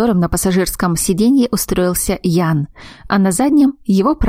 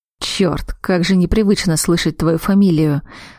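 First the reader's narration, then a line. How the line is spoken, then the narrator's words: Hoarse voice over phone. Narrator (Russian): раздался на другом конце хриплый голос Ратмира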